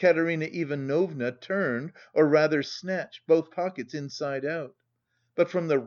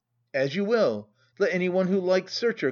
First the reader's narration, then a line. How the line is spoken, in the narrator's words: cried Katerina Ivanovna